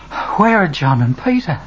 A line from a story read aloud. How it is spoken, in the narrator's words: Panting, Mary Magdalene asks